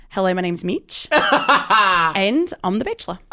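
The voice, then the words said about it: Put-on Australian accent. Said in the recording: “He's called the Australian Bachelor... So it's the Bachelor if he were Australian... these accents... You have a talent.”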